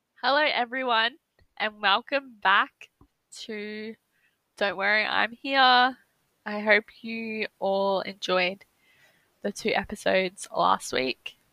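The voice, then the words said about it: Congested, blocked-nose voice. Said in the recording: “my voice sounds a bit weird, ... it's because my nose is blocked. ... my throat was burning”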